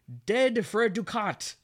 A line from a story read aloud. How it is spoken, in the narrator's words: Hamlet notices the moving curtain and yells